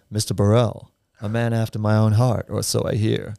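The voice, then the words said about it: Put-on American accent. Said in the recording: “excuse the American accent.”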